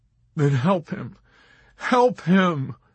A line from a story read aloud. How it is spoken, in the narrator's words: Dobbs begged